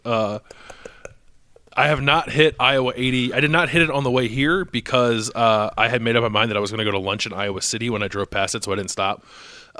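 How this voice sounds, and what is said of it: Hoarse, fading voice. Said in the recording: “I'm losing my voice a little bit ... You were screaming in the press box.”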